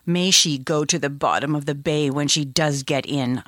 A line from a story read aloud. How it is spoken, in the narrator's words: said savagely